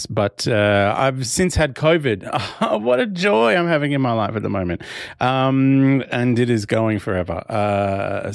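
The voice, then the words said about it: Slightly hoarse voice. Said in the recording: “my voice is mostly back. It's still a little bit hoarse”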